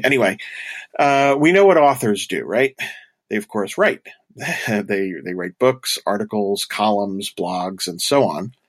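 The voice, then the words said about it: Stuffy, congested, slightly breathy voice. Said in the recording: “I've got a cold, so I'm kind of working through a stuffed up nose here. So I apologize if I sound a little stuffy or breathy.”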